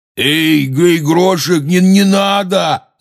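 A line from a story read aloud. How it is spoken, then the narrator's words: Shout. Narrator (Russian): закричал Хагрид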